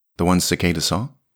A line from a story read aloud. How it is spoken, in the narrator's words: asked Flea